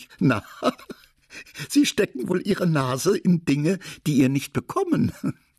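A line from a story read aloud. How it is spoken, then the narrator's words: Laughing. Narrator (German): Lachend sagte sie zu dem König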